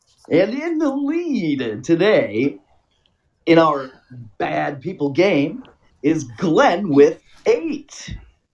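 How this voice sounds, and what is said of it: Horse race announcer voice. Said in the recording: “I'm gonna do my horse race voice.”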